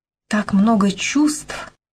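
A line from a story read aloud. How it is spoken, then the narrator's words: Breathless exhale. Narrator (Russian): выдохнула Беркли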